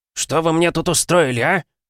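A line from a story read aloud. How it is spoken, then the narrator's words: Yelling. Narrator (Russian): заорал он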